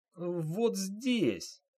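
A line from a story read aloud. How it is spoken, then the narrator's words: Quiet whimpering. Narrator (Russian): жалостливо сморщив лицо и тихо хныкая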